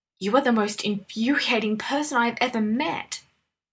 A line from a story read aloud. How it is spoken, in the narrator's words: Granby finally hissed, after a good deal of sputtering